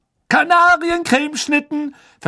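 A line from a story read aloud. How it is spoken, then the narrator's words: Loud announcement. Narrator (German): verkündete Fred laut der aufgeregten Schülerschar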